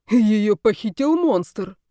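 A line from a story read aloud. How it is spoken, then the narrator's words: Puzzled grunt. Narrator (Russian): озадаченно хмыкнул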